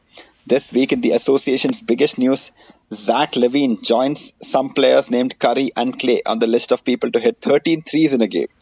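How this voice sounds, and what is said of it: Indian accent. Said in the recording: “your favorite NBA podcast in an Indian accent”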